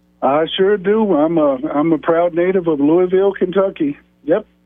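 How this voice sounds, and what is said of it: Slight Kentucky country accent. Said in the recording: “still sounds as country as they come ... you do have that little accent”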